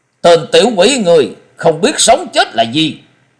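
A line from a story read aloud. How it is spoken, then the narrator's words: Angry shout in unison. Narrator (Vietnamese): Năm lão đồng thanh phẫn nộ quát lớn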